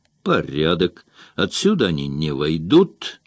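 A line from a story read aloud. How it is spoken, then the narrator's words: Plain. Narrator (Russian): сказал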